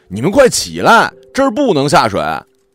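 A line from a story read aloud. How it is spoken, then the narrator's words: Man shouting. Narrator (Chinese): 一个男人朝我喊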